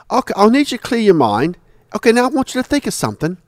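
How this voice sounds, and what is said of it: Imitates another person's accent. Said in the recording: “I guess he had this accent, and I'm talking like that because that's the way he talked.”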